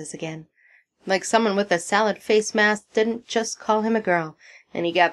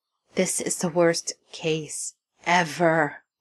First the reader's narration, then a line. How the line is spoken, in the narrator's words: murmurs to himself